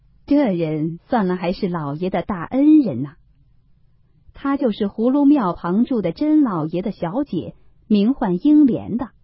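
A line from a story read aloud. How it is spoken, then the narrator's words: Sneering. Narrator (Chinese): 门子冷笑道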